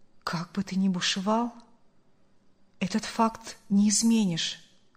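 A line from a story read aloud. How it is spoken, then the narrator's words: Calm, sorrowful man. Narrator (Russian): Спокойно и скорбно произнес мужчина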